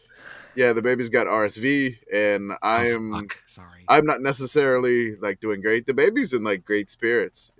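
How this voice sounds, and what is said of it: Raspy, sick-sounding voice. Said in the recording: “If I sound a little raspy,... just battling some baby sickness”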